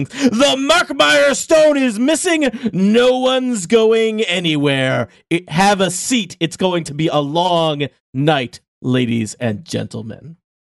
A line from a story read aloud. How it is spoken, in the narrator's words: the captain of the museum security forces, and he yells at the top of his lungs